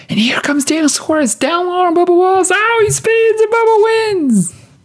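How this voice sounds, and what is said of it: Imitating Rick Allen's race calling. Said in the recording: “That was probably not a good Rick Allen impression.”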